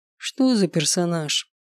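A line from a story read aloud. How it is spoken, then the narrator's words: Lazy question. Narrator (Russian): Лениво поинтересовался отец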